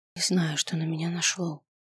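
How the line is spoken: Whispered confession. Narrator (Russian): призналась я шепотом

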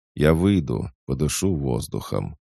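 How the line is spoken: Muffled, flat. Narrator (Russian): глухо произнес Гнянец

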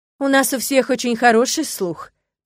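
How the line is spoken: Shout. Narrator (Russian): прокричал Кастера

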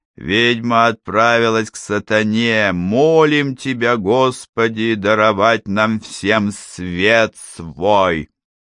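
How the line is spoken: Chanting. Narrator (Russian): он произнес нараспев

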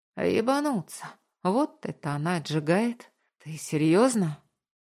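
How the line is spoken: Breathless exhale. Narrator (Russian): Выдохнул

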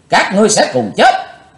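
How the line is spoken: Loud roar. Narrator (Vietnamese): Chí Tôn quát lớn

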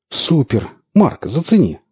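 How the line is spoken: Exclamation. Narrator (Russian): воскликнул Орех

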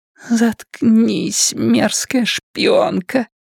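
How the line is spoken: Whisper. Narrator (Russian): прошептала Дженни

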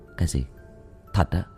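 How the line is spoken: Soft puzzled question. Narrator (Vietnamese): Tôi nhíu mày, khẽ hỏi lại

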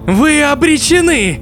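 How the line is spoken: Shouting after laughter. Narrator (Russian): перестав смеяться, прокричал Локи

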